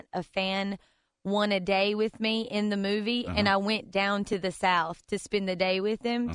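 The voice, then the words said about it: Strong American country accent. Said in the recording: “Is that a really, like, unbelievably ... country? ... my country accent”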